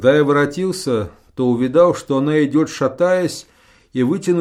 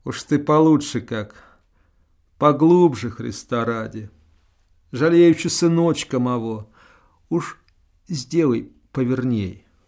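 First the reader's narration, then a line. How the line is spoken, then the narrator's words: Quiet, ashamed pleading. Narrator (Russian): тихо, стыдливо попросила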